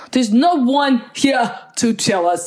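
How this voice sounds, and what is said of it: Russian-accented Christopher Walken impression. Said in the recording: “I slip into a random weird accent every once in a while ... It's like Russian Christopher Walken.”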